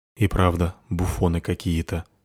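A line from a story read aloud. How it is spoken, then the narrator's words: Quiet. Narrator (Russian): тихо сказала одна темная фигура другой темной фигуре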